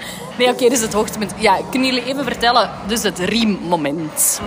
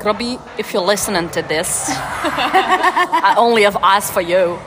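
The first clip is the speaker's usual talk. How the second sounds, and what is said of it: Put-on Australian accent. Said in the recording (Dutch): “dit is mijn Australisch accent”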